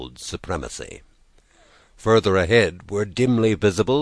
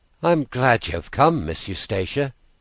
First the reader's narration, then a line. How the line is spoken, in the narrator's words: he said with a sigh of relief